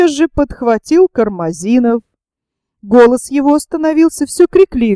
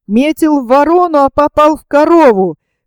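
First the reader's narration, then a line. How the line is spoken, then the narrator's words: Drunken full-throated shout. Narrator (Russian): крикнул во все горло какой-то дурак, должно быть пьяный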